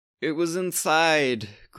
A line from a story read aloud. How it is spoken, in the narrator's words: groaned Alexander